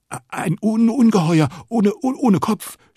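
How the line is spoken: Stammering. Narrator (German): stottert er

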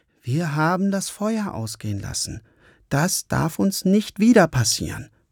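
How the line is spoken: Calm. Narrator (German): sagte Lukas ruhig

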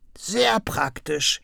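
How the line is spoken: Croaking. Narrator (German): krächzte Krummel

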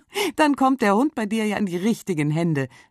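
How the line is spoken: Laughing. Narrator (German): lacht Birte

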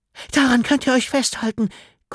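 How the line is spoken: Panted. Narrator (German): keuchte sie noch

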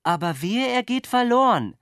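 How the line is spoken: Dove calling after someone. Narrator (German): rief die Taube ihm hinterher

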